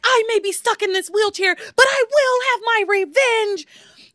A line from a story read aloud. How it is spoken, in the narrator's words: Ivy yells back